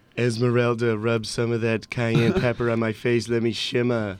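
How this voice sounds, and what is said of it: Poor imitation of another person's voice. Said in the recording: “worst Trump impression of all time ... both of us just did terrible Trumps”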